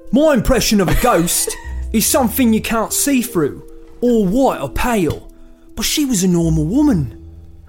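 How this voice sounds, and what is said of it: Down-to-earth put-on British accent. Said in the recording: “a British voice ... super realistic, super down to earth ... normal, yeah, British ... not hammy”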